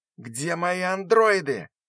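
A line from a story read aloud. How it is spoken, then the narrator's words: Sudden yell. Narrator (Russian): вдруг завопил Коновальцев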